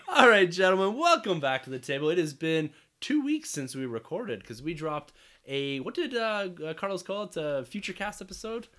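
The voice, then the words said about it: Raspy, squeaky voice from a cold. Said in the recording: “I'm a bit squeaky ... my cold here ... My voice is probably gonna get more and more raspy as we go ... that raspy voice ... it's so raspy”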